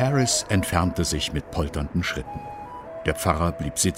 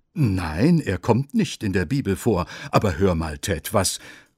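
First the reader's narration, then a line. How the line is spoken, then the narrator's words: Stammering priest. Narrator (German): stammelte der Pfarrer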